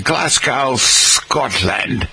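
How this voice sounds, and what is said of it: Put-on Scottish accent. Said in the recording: “How's my Scottish accent?”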